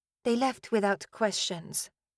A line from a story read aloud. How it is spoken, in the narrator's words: Tavi said quietly